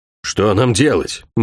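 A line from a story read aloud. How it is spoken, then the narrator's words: Gloomy question. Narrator (Russian): мрачно спросил Алин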